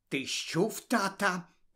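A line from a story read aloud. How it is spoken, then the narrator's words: Whisper. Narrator (Ukrainian): прошепотіла місіс Візлі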